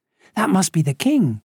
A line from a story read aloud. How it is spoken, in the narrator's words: Lisa exclaimed